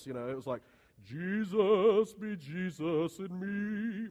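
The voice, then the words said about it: Sung imitation of another person's voice. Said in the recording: “I'll try to sing it in my best Jimmy Swaggart voice.”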